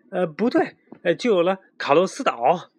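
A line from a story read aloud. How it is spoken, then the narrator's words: Panicked shout. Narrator (Chinese): 阿诺突然惊慌地喊起来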